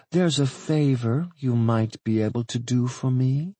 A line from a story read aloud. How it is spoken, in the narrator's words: she purred